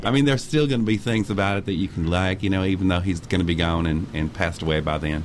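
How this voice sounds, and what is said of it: Texas accent. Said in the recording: “I like your accent. ... It's very authentic Texas.”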